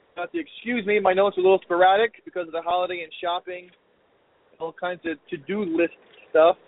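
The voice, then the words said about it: Slightly scratchy voice. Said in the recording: “My voice is a little scratchy, too, from yelling and screaming at kids.”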